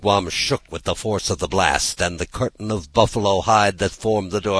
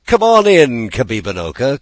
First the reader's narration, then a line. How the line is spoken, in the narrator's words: called Shingebiss merrily